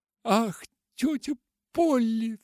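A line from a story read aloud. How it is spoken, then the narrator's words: Sobbing. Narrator (Russian): всхлипнула Полианна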